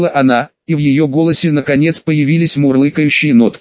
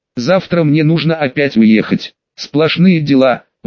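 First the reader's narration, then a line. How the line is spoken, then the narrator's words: Sighing. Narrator (Russian): вздохнула она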